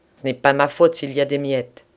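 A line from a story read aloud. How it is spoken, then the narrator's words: Curt, dry. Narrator (French): dit sèchement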